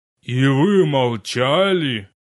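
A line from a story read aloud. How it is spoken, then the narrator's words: Furious roar. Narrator (Russian): взревел священник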